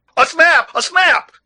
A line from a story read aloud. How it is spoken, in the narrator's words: shouted the negro, like a madman